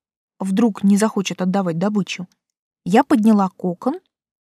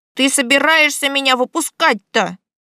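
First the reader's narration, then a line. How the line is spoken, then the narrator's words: Sudden grumble. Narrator (Russian): внезапно проворчал сверток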